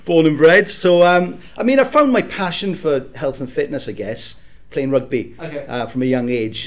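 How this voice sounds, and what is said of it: South Wales accent. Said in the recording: “if you can't tell by the accent, I'm from South Wales.”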